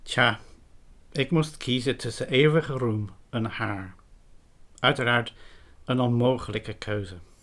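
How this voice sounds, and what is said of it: Dutch spoken with English accent. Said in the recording (Dutch): “het is bijzonder interessant dat ... een Engels accent blijkt te hebben”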